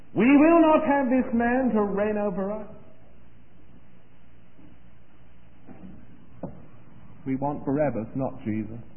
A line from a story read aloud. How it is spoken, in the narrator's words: screamed